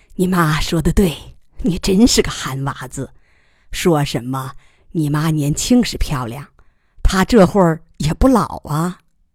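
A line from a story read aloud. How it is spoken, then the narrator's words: Calm, laughing, teasing. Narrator (Chinese): 干爹已经平静下来，笑着打趣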